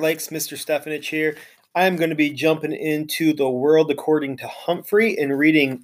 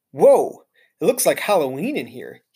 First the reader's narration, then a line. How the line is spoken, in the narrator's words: exclaimed